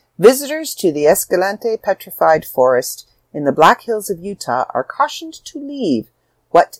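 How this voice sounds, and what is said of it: Usual voice. Nothing is said of it.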